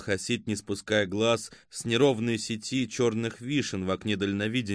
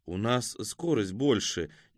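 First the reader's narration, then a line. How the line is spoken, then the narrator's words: Uncertain. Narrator (Russian): неуверенно сказала Катя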